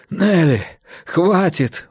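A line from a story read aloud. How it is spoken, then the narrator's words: Breathless exhale. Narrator (Russian): выдохнул он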